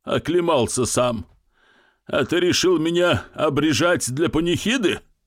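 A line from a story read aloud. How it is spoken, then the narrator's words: Giggling old man. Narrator (Russian): Старик хихикнул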